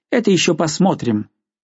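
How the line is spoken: Clipped curt reply. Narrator (Russian): Маленький священник отвечал отрывисто

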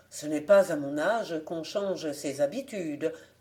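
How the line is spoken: Plain. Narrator (French): répondit le fermier

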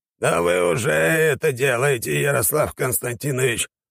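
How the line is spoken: Grumbling reply. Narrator (Russian): проворчал в ответ юрист

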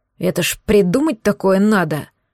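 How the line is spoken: Grumbling. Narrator (Russian): проворчал он

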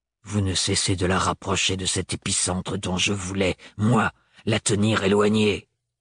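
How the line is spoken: Growling. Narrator (French): gronda-t-il

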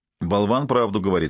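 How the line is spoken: Plain. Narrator (Russian): сказал Шай

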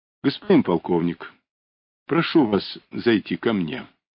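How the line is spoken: Gentle commissar. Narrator (Russian): мягко предложил комиссар

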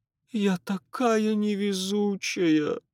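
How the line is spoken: Moan. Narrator (Russian): простонала миссис Марье

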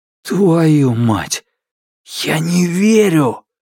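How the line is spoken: Hissing. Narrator (Russian): прошипел я

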